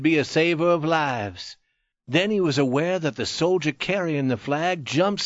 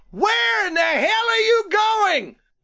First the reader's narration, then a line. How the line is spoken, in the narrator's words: the lieutenant was shouting